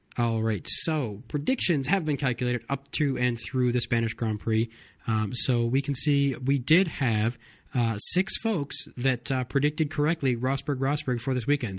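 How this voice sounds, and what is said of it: Weak, sick-sounding voice. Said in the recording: “my voice is not quite up to what it normally is. I'm kind of under the weather here and I can't talk for a whole lot longer”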